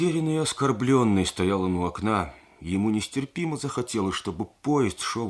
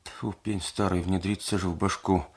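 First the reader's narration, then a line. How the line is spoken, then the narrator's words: Groaning moan. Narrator (Russian): Проня не то застонал, не то замычал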